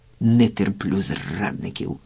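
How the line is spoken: Hoarse grumble. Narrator (Ukrainian): буркнув хрипун

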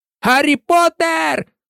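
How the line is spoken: Shouted. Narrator (Ukrainian): закричав Фред чи Джордж Візлі

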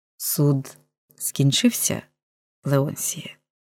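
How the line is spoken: Soft, tender, mournful. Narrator (Ukrainian): промовив він тихо і ласкаво, немов говорячи про небіжчика

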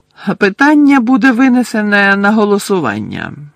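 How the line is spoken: Cold. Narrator (Ukrainian): холодно сказав містер Крауч

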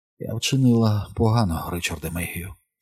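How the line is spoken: Sad whisper. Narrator (Ukrainian): сумно прошепотіла

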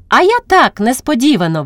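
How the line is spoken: Cheerful chirping. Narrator (Ukrainian): весело щебече Христя

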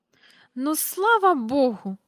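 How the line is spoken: Relieved exclamation, loud sigh. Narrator (Ukrainian): вигукнула міс Жайворон і голосно зітхнула

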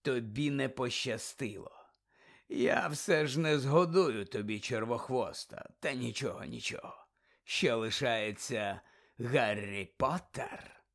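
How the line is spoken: Snake hissing. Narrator (Ukrainian): Змія зашипіла

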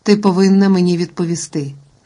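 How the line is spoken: Cold insistence. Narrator (Ukrainian): наполягав пан Дарбеде холодно

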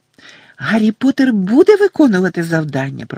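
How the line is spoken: Squeaky elf voice. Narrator (Ukrainian): пропищав ельф

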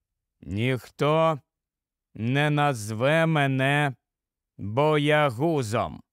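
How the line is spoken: Slow speech. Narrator (Ukrainian): промовив повільно він

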